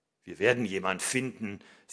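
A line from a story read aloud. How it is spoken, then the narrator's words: Confident voice. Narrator (German): sagt er mit zuversichtlicher Stimme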